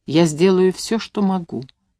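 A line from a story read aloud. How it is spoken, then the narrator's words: Soft. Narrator (Russian): сказала мягко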